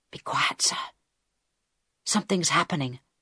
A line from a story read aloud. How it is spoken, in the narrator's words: Harold whispered back